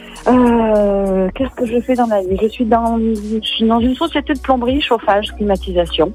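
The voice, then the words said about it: Slight Provençal southern French accent. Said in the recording (French): “Salon de Provence, vous avez un peu l'accent. C'est tout mignon.”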